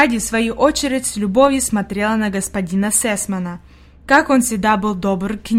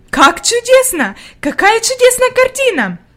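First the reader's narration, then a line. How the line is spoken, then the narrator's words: Exclaimed. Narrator (Russian): воскликнула она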